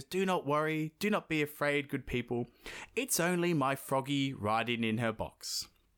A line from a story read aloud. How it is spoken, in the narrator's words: Prince Ivan, he he calmly gets to his feet and he goes